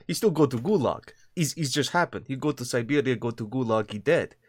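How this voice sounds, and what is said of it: Put-on Russian accent. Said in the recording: “the Russian accent is best accent. It's horrible, but it's horrible in funny way”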